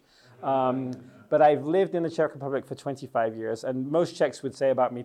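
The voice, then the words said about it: English accent. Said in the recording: “from my accent, you might think my English is amazing. It's because I'm English.”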